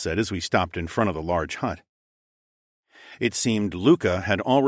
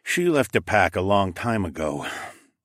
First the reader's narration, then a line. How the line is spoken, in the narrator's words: sighed